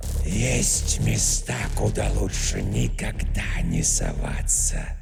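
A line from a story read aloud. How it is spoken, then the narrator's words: Eerie two-mouthed whisper. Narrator (Russian): прошептала темная тварь в унисон обоими ртами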